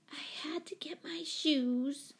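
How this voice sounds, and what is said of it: Small, timid child's voice. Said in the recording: “in a small voice.”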